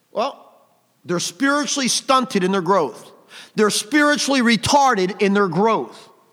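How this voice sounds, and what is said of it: Loud, raised preaching voice. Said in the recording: “always raising your voice like that? ... lift up thy voice like a trumpet”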